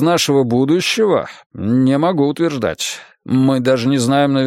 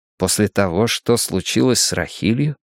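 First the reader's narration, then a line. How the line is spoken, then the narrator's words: Quiet question. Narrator (Russian): тихо спросил я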